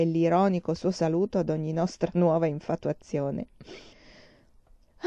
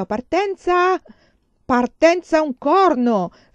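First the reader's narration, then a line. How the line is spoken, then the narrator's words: Father's echoing shout. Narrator (Italian): fece mio padre con un urlo che echeggiò per tutto il vagone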